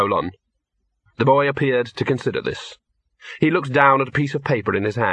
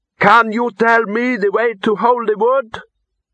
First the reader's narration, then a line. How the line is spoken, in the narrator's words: The boy cupped his hands around his mouth and shouted